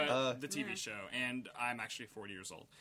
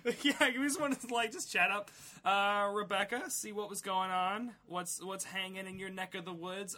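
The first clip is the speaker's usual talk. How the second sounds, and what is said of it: Adult faking laid-back teen voice. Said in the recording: “I'm talking like the Cody from Step by Step. ... You sound like an old police officer who's tried to infiltrate a high school full of teenagers. ... And talk like them.”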